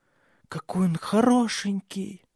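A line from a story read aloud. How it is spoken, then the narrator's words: Hoarse whisper. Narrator (Russian): хрипло шепнула она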